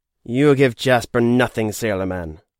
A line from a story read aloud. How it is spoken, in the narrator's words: replied with a sneer